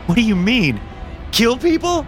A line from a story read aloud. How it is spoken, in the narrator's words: I screamed